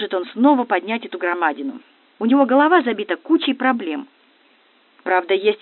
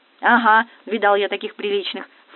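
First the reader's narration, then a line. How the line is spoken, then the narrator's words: Scoffing snort. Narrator (Russian): фыркнул он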